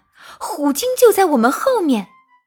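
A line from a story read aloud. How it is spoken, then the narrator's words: Little penguin shouting loudly. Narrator (Chinese): 小蓝企鹅大声地叫喊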